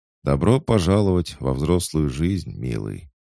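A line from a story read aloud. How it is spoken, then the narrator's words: Sad, smiling. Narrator (Russian): грустно улыбнувшись, сказала Марина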